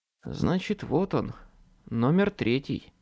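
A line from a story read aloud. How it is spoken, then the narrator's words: Barely audible. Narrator (Russian): произнес я чуть слышно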